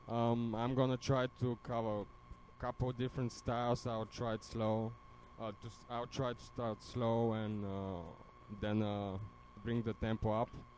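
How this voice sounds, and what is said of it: Bulgarian accent. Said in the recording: “My accent is Bulgarian because I'm from Bulgaria.”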